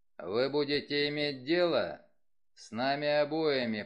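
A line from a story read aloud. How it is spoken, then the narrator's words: Low booming voice. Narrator (Russian): прогудел Вульф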